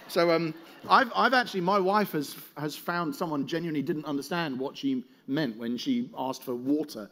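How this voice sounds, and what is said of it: Accent pronouncing the T in water. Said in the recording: “the accent, because I'm one of those people who says the word water like it has a T in it”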